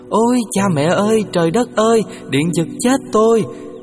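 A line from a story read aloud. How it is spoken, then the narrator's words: Panicked screaming. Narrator (Vietnamese): Y ta la lên thất thanh rằng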